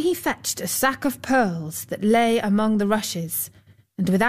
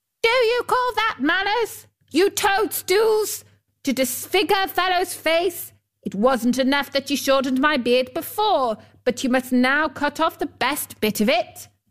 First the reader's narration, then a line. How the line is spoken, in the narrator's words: He yelled to them